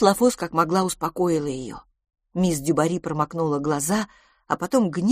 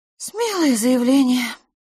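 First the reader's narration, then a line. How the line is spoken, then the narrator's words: Sighed. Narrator (Russian): вздохнула мисс Лафос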